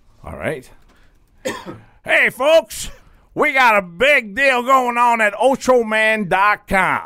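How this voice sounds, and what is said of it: Truck-pull announcer voice. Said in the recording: “Now can you do it in your truck pull voice?”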